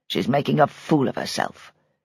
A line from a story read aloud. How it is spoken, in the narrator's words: muttered